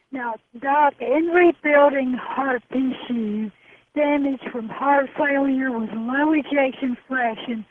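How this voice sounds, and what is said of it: Hoarse voice from laryngitis. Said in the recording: “I hope my laryngitis is not too bad.”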